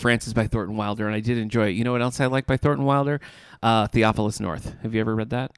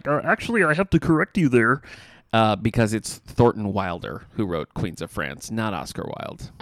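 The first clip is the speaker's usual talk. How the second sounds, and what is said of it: Kermit the Frog-like character voice. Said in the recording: “Kermit the Frog voice ... A little Kermity ... I don't think that was a great impression, but I think the essence was right”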